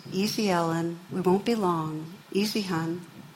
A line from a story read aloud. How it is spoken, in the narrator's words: the grandma's saying in a controlled voice